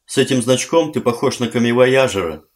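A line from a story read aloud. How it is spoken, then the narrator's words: Giggling. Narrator (Russian): хихикнула Барбара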